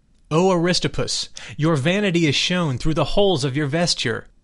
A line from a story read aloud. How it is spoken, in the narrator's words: Socrates he exclaimed in a loud voice